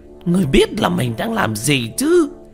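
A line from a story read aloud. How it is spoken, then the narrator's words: Shouting. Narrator (Vietnamese): Quỷ Di hét lên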